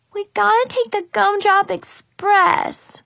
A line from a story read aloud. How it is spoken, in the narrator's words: Brianna exclaimed